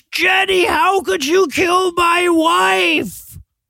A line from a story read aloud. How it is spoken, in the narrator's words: he screams